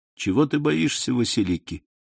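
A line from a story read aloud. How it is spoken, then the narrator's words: Soft, tender yet proud. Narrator (Russian): ответил Селим мягко, ласково и в то же время гордо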